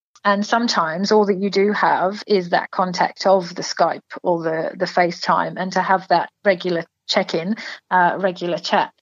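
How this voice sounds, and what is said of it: English accent. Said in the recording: “from my accent, so I'm from England. I'm not a true blue Aussie”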